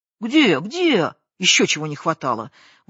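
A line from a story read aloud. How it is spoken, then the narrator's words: Indignant shout. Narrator (Russian): возмущенно крикнул тот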